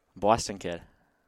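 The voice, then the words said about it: Put-on Boston accent. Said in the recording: “Boston, Bastin ... That's a pretty good accent.”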